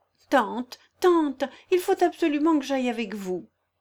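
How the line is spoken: Pleading young girl. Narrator (French): supplia la jeune fille

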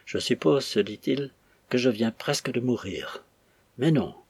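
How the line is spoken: Coldly cruel inner voice. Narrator (French): continua-t-il avec une pensée froidement cruelle

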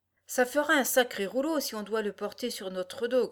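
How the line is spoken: Rabbit grumbling. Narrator (French): grommela le lapin

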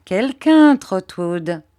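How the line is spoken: Laughing. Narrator (French): dit Agnès en riant

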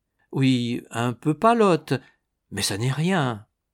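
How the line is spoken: Stammering. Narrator (French): balbutia

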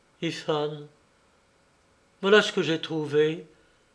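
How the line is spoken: Stammering. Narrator (French): balbutia-t-elle

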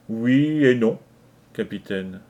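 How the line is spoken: Slow reply. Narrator (French): répondit-il lentement

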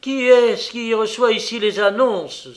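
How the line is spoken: Exclamation. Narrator (French): s'écria Kovalyov

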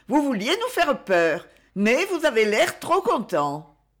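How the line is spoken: Radiant exclamation. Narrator (French): s'écria-t-elle radieuse

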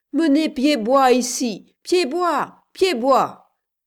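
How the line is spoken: Men shouting amid bombardment. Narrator (French): criaient les hommes qui s'évertuaient à faire sauter les portes à la faveur du bombardement

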